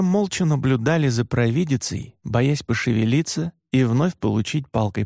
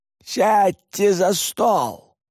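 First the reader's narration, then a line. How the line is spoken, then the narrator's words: Shout. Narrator (Russian): крикнула Варга на Атарас Юри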